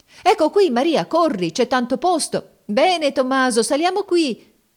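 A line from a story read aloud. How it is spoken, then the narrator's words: Shouting. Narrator (Italian): si gridava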